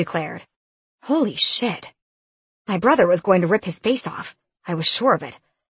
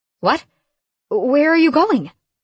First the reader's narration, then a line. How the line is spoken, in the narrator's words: My voice trembled